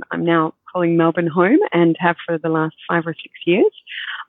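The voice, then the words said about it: Scottish accent softened by Australian. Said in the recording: “I'm originally from the UK, from Scotland many years ago. But as you can hear from my accent, I have lived here for a very long time.”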